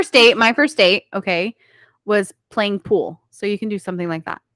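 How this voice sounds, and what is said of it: Usual voice. Nothing is said of it.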